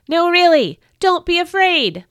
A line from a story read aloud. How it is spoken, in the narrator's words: the angel exclaimed again